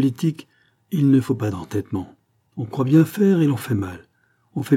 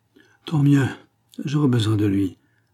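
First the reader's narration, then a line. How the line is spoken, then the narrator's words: King sighing. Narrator (French): dit le roi avec un soupir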